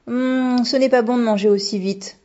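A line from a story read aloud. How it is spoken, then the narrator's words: Grumbling. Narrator (French): grommela Monsieur Fujita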